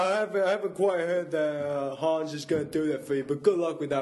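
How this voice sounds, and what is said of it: Usual voice. Nothing is said of it.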